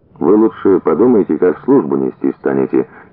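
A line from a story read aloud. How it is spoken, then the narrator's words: Quiet. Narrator (Russian): тихо сказал Коля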